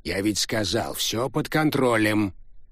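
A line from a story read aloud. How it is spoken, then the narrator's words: Old man barking. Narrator (Russian): рявкнул старик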